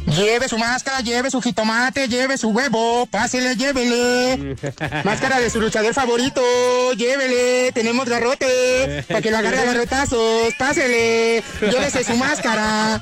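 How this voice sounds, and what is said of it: Shouted street vendor sales pitch. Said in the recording (Spanish): “nos dio acento, nos dio variedad, nos dio grito, nos dio entonación”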